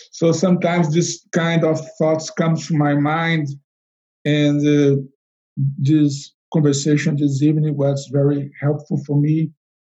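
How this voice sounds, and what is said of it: Non-native English accent. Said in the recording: “my English is not perfect ... even with my accent, even with my English that is not so perfect”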